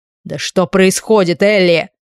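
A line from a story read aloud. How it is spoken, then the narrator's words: Nearly barking. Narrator (Russian): Почти рявкнул он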